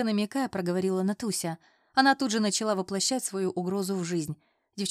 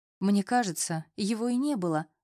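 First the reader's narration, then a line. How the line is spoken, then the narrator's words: Sad sigh. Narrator (Russian): вздыхаю грустно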